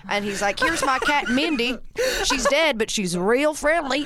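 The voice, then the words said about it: Put-on Southern US accent. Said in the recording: “the Southern States accent is the best accent in the world”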